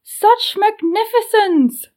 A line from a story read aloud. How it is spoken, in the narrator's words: Eva shouted